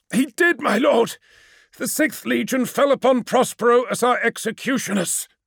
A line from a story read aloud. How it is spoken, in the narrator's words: gasped Amon, as Magnus's grip on his throat tightened